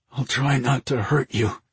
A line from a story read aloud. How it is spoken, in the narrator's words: said in a strained voice